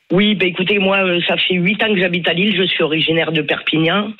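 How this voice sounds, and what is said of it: Southern French regional accent. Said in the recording (French): “ça s'entend, vous n'avez pas l'accent de Lille”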